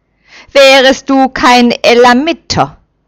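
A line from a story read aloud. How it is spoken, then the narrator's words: Angry threat. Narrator (German): droht zornig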